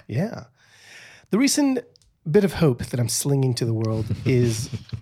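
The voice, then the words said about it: Put-on Mexican American British accent. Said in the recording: “I don't know why I just started talking in a Mexican American British accent”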